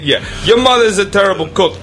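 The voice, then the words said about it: Attempted Philadelphia accent. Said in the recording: “This isn't even a Philly accent, I don't think.”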